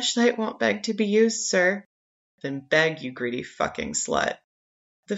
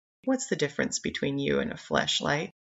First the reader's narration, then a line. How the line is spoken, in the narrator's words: saying almost tenderly